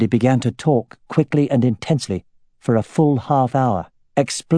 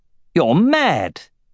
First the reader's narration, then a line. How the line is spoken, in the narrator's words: he exclaimed